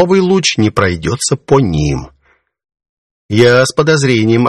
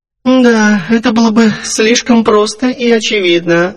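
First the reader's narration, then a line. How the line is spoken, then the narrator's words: Disappointed sigh. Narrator (Russian): разочарованно вздохнула Тайвари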